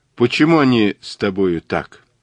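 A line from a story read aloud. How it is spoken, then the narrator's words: Listless voice. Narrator (Russian): сказала она вялым голосом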